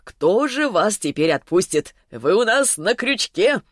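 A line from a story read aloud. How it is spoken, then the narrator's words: Short chuckle. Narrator (Russian): хохотнул он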